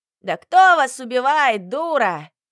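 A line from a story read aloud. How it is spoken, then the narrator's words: Man yelling. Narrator (Russian): Тоже заорал мужик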